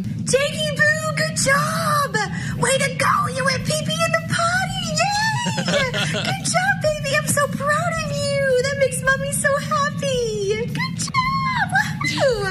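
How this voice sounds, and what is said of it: Excited doting mom voice. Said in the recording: “that mom voice is doing what it do”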